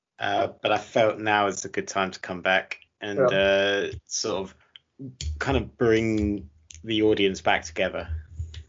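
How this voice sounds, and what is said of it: Tired, low-energy voice. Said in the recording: “I have been a COVID patient ... my voice is very low on energy.”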